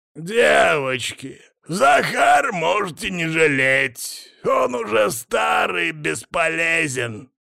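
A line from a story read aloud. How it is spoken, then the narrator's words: Creaky grating voice. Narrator (Russian): Снова проскрипел голос хозяина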